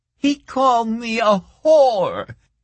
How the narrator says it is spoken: the girl wailed

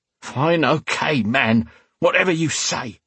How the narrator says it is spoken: spat

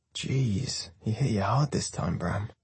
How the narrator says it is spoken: Hartman says, lowering his voice

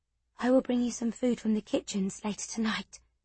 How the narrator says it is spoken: she whispered

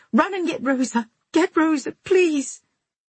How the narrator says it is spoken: cried out in a queer, muffled voice

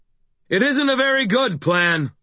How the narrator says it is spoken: I shouted

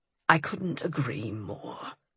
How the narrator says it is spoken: he growled against my skin

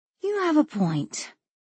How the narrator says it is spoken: Danielle sighed

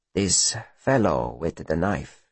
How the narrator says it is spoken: says Styx softly

